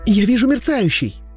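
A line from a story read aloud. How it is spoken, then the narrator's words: Excited shout. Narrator (Russian): взволнованно крикнул хафлинг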